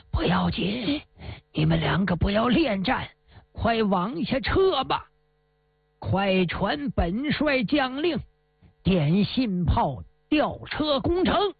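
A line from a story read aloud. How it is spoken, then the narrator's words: Fearful, through clenched teeth. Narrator (Chinese): 托托面如土色，摇摇头，紧咬牙关说道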